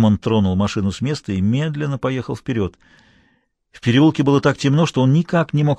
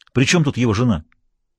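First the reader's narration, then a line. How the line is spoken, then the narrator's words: Irritated question. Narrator (Russian): раздраженно спросил он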